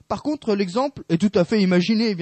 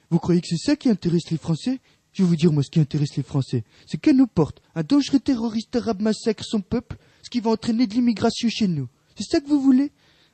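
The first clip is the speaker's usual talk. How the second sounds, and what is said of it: Imitates another person's voice. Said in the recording (French): “attention, imitation légendaire ... magnifique imitation.”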